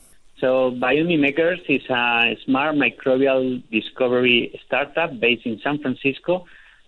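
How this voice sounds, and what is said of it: Slight Spanish accent. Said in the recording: “he's uh, uh, actually a Spaniard, so he has a bit of an accent.”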